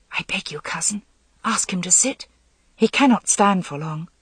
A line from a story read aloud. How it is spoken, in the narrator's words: Nimue whispered